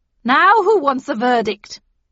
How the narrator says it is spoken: asked the Queen triumphantly

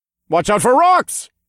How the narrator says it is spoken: I yelled

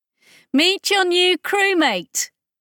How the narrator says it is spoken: Chris shouted

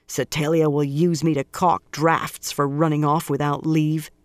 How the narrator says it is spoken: she grumbled

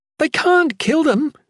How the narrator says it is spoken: Regina shrieked

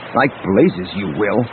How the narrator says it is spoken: Luke growled

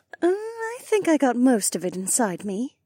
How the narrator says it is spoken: Becca purred

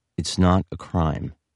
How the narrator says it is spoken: said Hayes in her unemphatic monotone

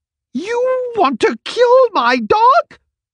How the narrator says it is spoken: Waverly exclaimed to Gunster

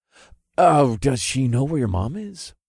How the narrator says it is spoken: I asked in a hopeful tone

